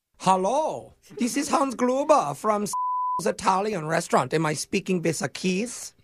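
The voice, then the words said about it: Put-on foreign accent. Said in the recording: “they cannot say very well because my accent”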